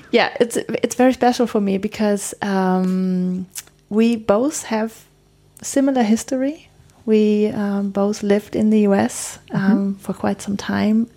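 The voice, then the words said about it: Slight German accent. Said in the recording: “we're both German, so a little German accents. ... you can hear it my accent.”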